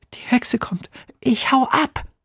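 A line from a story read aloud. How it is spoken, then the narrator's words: Frightened hiss. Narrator (German): zischt Emil, der schon ganz bleich ist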